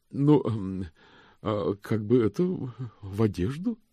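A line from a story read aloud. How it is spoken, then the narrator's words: Uncertain. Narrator (Russian): сказала госпожа Торт неуверенно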